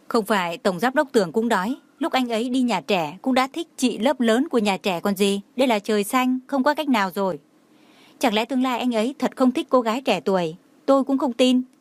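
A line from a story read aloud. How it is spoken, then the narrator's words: Bursting into laughter. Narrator (Vietnamese): Lâm Sở Nhai bật cười nói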